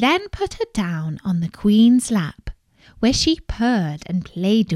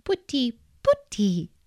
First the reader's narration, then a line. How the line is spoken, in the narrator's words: cried